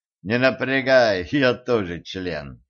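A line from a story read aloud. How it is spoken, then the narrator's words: Snorting chuckle. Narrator (Russian): хмыкнул Денис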